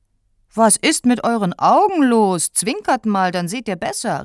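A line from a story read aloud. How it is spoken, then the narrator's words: Captain calling out. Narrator (German): rief der Käpt'n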